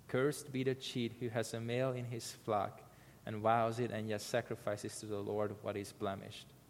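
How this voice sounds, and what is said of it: Speaker's own foreign accent. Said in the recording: “Forgive my accent.”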